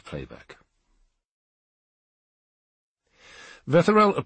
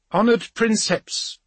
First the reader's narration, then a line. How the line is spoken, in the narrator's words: called out